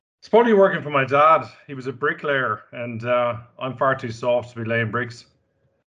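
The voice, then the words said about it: Irish Dublin accent. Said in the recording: “Dublin, Ireland. ... Couldn't tell by the accent.”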